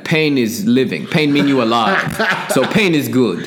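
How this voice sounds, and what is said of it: Put-on Russian accent. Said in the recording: “Russian accent”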